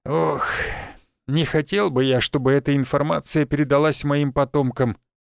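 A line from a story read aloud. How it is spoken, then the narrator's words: Old man sighing. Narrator (Russian): вздохнул прадед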